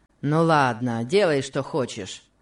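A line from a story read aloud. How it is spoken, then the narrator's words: Rough, rude tone. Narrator (Russian): сказал он Касси грубым тоном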